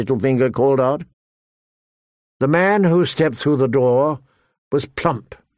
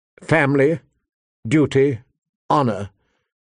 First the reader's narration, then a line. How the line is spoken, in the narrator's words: she recited stiffly